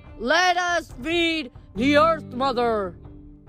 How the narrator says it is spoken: The partiers yelled

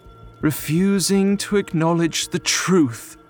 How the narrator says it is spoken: cried bitterly

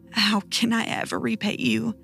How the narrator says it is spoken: I asked, my voice rough and gravelly

